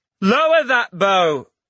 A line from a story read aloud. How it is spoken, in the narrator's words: a voice shouted